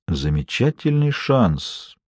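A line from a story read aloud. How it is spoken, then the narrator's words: Thoughtful reply. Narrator (Russian): задумчиво отозвался Костельно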